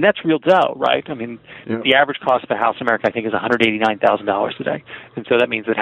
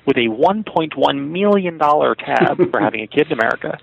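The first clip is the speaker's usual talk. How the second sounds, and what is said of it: Movie villain impression voice. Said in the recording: “I always put my Dr. Evil voice on”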